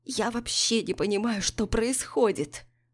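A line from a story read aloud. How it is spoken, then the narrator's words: Creaky whisper. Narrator (Russian): Скрипучим голосом шепчет Миллиган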